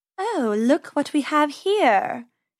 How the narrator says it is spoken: she purred

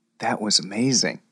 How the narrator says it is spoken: whispered Max

